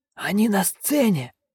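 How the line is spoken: Hoarse wheeze. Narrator (Russian): просипел он

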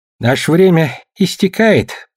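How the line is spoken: Gloomy. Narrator (Russian): мрачно сказал мэр

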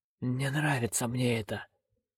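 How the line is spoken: Barely audible wheeze. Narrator (Russian): еле слышно просипел он

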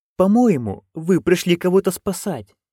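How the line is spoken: Timid reminder. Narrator (Russian): робко напомнил он

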